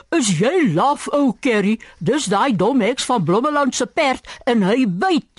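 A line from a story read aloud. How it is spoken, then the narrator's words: Shouting. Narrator (Afrikaans): skreeu Borrie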